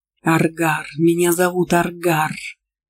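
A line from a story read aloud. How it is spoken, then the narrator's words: Heated growl. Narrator (Russian): Жарко прорычал колдун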